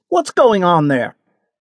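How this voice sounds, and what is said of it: Authoritative commanding call. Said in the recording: “in an authoritative voice”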